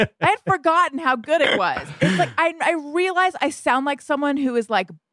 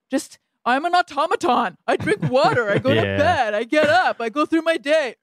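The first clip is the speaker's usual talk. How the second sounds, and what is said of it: Imitates another person's voice. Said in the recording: “That is not a good impression of me ... that was an impression of you”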